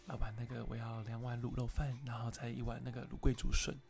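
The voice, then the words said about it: Soft, gentle late-night radio DJ voice. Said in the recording (Chinese): “ICRT 啊，什么飞碟电台啊、亚洲电台啊，他们晚上的声音都是这样 ... 很轻柔 ... 讲话也要这么小声的感觉”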